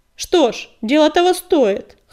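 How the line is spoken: Amused snort. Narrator (Russian): хмыкнул Огнегриф

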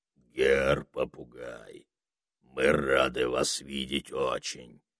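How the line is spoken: Deep bass voice. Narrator (Russian): начал он густым басом

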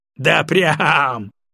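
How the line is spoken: Snort. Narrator (Russian): фыркнул Егоров

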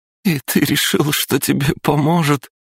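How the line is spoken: Forced out through laughter. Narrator (Russian): С трудом выдавила она сквозь смех

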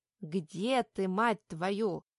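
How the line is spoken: Menacing demand. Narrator (Russian): Денис грозно требует ответа

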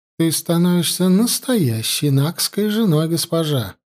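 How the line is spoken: Meek, venomously mocking. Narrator (Russian): заметила Янди смиренным голоском, в котором царевна давно уже научилась различать ядовитую насмешку

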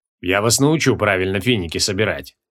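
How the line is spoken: Muttered. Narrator (Russian): пробормотал креол

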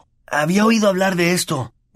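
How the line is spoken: Hoarse voice. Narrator (Spanish): dijo con voz ronca

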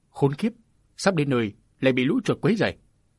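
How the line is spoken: Muttered cursing. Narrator (Vietnamese): mụ lẩm bẩm thóa mạ

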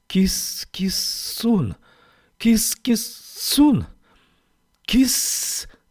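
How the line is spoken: Hissing, crackling calls. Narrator (Russian): Звуки шипели и трещали вокруг, как искры

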